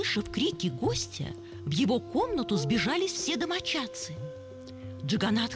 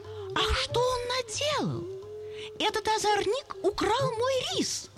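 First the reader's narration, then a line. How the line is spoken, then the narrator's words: Bitter exclamation. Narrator (Russian): брахман с горечью воскликнул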